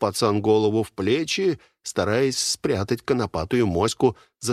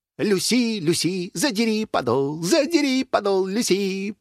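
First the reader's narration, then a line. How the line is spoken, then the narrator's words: Sing-song chant. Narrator (Russian): произнес он нараспев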